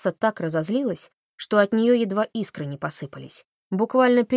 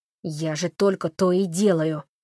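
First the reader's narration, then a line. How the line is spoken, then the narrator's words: Sudden female growl. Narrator (Russian): вдруг прорычала она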